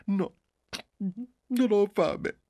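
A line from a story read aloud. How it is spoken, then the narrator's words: Mother sobbing. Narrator (Italian): disse la madre singhiozzando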